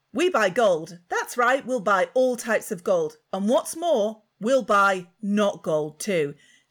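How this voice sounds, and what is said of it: Advert voiceover voice. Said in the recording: “I don't do a good voiceover voice, ... I think you do. ... These are always men.”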